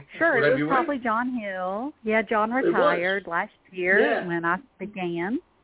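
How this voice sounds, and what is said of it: Regional American accent. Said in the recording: “I figured you weren't from Vermont. I just picked up your accent there.”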